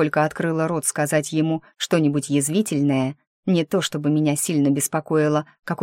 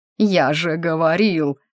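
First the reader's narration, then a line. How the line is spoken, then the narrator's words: Excited wail. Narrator (Russian): взвыл Фремантль, только что не подпрыгивая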